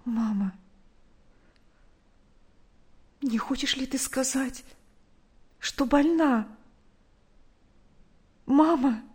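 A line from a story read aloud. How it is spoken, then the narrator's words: Frightened quiet question. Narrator (Russian): Наташа испуганно … тихо спросила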